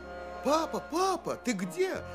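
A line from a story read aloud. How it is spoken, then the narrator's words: Girl shouting. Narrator (Russian): закричала девочка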